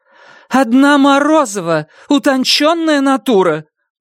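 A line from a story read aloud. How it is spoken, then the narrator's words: Fervent exclamation, woman teacher. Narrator (Russian): пылко воскликнула учительница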